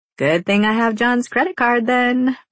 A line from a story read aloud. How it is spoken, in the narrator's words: Roxy says with a chuckle